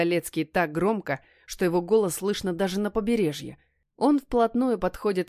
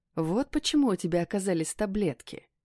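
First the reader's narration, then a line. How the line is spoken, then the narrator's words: Quiet, hoarse. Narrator (Russian): тихо и хрипло произносит он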